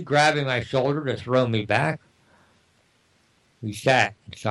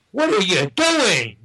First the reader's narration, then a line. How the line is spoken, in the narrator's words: Rick screamed